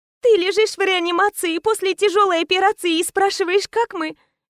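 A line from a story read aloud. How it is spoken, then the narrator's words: Smiling through tears. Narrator (Russian): Улыбнулась сквозь слезы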